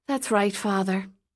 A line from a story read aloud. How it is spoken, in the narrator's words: Katie said with a sigh